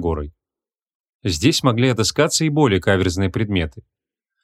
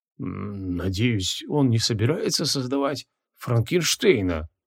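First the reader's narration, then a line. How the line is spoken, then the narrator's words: Stunned mutter. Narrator (Russian): Ошарашенно пробормотал Мао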